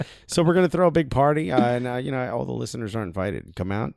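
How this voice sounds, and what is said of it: Usual voice. Nothing is said of it.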